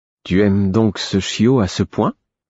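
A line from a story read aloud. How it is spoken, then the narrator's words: Hesitant tone. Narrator (French): d'un ton hésitant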